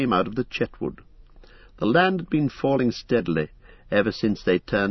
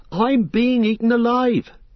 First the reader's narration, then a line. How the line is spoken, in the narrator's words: cried Pippin